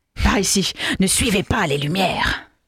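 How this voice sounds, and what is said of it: Imitates Gollum's voice. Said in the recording (French): “Quoi, c'est Gollum cette fois? ... Non, c'est Gollum.”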